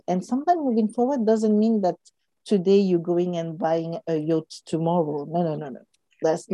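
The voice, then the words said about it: Speaks with a noticeable accent. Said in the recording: “A yacht. Sorry, that's my accent.”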